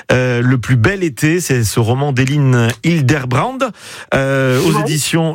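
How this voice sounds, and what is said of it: Put-on accent. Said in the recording (French): “Je ne sais pas pourquoi je prends cet accent... je ne sais pas pourquoi.”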